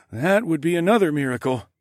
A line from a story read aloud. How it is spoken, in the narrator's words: Sawadi chuckled